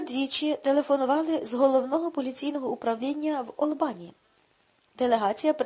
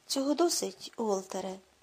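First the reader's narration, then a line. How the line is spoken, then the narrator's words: Wearily cut off. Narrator (Ukrainian): втомлено зупинив його Рудольф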